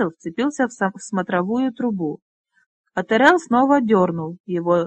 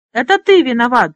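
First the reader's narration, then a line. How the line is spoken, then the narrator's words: Lord wailing. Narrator (Russian): завопил лорд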